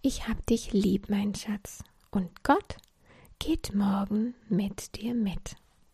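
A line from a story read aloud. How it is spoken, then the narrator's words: Soft spoken. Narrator (German): Mama sagte leise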